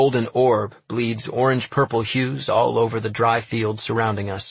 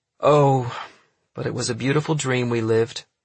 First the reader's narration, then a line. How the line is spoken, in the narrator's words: she sighs, embittered by all the events that have occurred since then